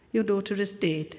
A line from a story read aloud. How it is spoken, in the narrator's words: he said